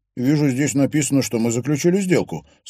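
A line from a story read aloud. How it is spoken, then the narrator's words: Plain. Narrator (Russian): сказал он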